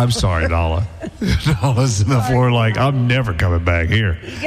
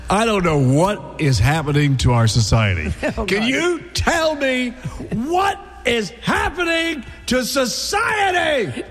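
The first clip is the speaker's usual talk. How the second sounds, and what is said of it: Loud yelling voice. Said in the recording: “you're yelling”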